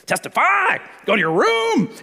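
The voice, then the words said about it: Stern yelling dad voice. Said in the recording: “my testify yell is the same as my dad voice.”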